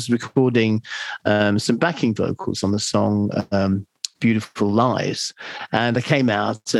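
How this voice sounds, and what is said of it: Usual voice. Nothing is said of it.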